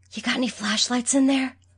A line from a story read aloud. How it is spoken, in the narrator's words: Michael whispered